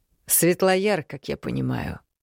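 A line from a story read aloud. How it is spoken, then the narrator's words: Cold inquiry. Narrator (Russian): холодно поинтересовался у него Маракьян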